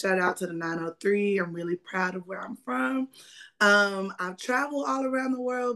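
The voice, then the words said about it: Texas accent. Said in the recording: “I am a Texas native, if you cannot hear it in my voice.”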